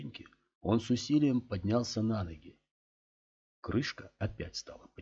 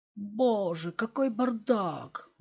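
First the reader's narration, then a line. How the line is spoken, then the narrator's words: Exclaiming. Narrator (Russian): воскликнула Кэтрин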